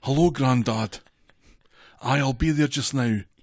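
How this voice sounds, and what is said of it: Put-on, developing Scottish accent. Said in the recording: “your Scottish accent... It's coming along, isn't it?... Coming along.”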